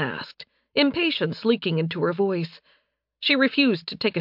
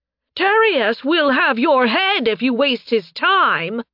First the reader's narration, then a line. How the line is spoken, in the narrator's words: Fius shouted after Narime as he ran after her